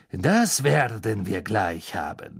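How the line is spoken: Murmur. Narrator (German): murmelte er

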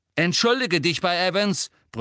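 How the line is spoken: Bellowing. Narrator (German): brüllte James

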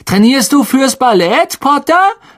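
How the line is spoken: Calling out mockingly. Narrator (German): rief Malfoy

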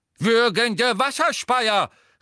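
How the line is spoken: Called out. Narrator (German): rief Professor Tofty

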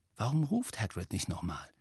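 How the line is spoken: Whisper. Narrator (German): flüsterte er

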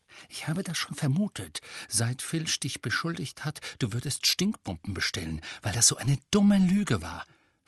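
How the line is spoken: Whisper. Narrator (German): flüsterte Hermine

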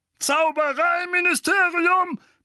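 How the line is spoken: Roaring. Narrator (German): brüllte Onkel Vernon

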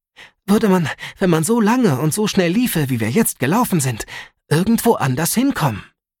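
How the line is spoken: Breathless, panting. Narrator (German): sagte Alice, noch immer keuchend

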